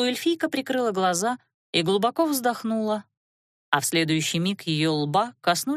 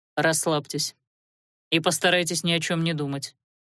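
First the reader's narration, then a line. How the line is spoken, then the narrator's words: Calm command. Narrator (Russian): инквизитор спокойно приказал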